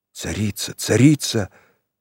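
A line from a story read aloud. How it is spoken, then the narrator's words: Reverent whisper. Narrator (Russian): пронеслось благоговейным шепотом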